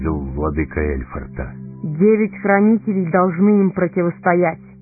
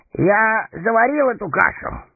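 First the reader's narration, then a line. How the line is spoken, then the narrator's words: Forced cheerful snort. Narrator (Russian): хмыкнул он, стараясь казаться веселым и беззаботным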